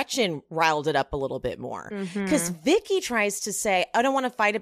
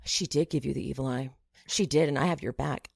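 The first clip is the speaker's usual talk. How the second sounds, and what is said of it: Whispered line. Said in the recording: “starts whispering to Vicky”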